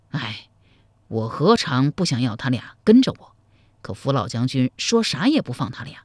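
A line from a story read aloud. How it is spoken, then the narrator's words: Sighing. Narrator (Chinese): 柴荣叹道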